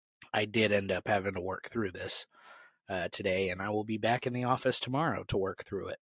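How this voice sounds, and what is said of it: Sick, sniffly, strained voice. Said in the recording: “I am sniffling and my throat is kind of all over the place. I am sick... my voice is just kind of shot today”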